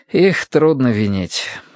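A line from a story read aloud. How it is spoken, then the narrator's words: Tired sigh. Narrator (Russian): Хьюго устало вздохнул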